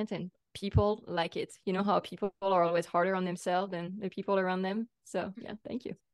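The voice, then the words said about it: French accent. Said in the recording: “I'm from France. You can probably tell... especially with your dialect. It's so nice... my accent”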